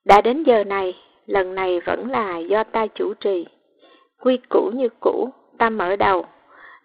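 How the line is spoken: Hoarse, after a cough. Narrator (Vietnamese): ho khan một tiếng rồi khàn khàn nói

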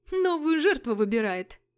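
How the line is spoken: Laughing loudly. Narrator (Russian): захохотал приятель студентки

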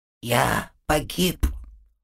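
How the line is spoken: Whisper. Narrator (Russian): прошептал он

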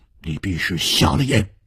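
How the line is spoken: Cold. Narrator (Chinese): 天风十四郎冷冷地说

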